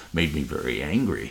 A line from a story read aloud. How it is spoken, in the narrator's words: growled